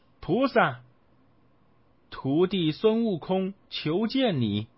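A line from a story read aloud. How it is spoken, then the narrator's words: Calling out. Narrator (Chinese): 他叫了他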